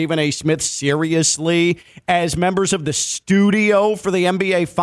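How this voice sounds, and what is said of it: Usual voice. Nothing is said of it.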